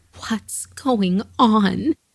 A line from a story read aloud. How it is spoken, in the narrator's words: she begged to know